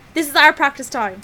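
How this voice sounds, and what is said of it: Poor attempt at Scottish accent. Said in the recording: “Stop, you can't do a Scottish accent. Don't embarrass yourself.”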